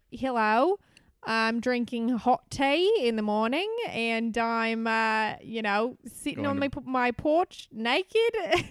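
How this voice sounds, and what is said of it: Put-on Australian accent. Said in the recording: “It's like you're chewing gum in the back of your throat ... my impression of an Australian person”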